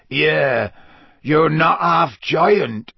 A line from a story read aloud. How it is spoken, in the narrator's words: said Hagrid croakily